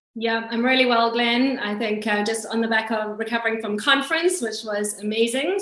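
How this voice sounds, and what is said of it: Non-London accent. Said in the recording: “as you'll appreciate from the accent, ... may not be a true Londoner ... figure out where the accent is from”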